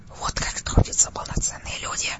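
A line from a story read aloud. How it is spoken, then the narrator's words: Solemn whisper. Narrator (Russian): Торжественным шепотом произнес Игорь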